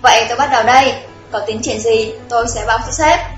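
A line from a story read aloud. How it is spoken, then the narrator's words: Smiling. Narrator (Vietnamese): Trung Lăng mỉm cười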